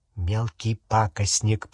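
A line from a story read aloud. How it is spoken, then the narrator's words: Whisper. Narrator (Russian): прошептал Рон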